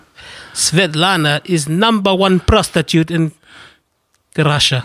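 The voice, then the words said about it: Put-on Russian accent. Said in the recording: “Give me a Russian accent ... when you do these accents”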